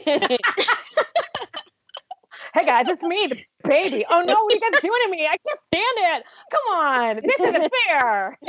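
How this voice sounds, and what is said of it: Energetic imitation of another person's voice. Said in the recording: “It's not a strong JoJo Siwa, but it's energetic. ... I could hear the bow completely through that imitation.”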